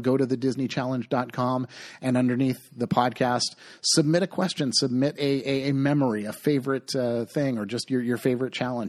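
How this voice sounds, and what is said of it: Hoarse voice. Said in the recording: “my voice is getting hoarse”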